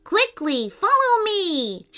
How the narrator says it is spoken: shouted Soft Nectar

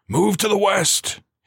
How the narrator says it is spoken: he barked

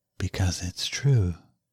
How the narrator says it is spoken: she whispered

